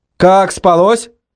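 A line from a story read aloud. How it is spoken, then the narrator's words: Shouting. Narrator (Russian): крикнул я Лене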